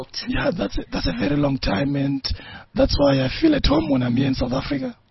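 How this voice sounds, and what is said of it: Hoarse, strained voice. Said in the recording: “losing my voice”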